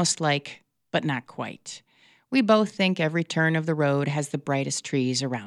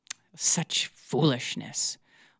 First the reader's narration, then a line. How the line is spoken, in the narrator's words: the other snorted